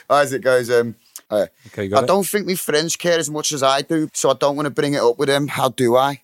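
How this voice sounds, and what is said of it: Put-on Liverpool accent. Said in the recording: “Do it in the accent ... Liverpool”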